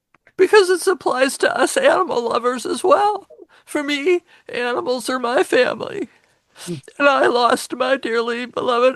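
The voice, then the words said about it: Tearful, emotional voice. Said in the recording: “maybe you can hear it in my voice, because now it's going to be my turn to cry”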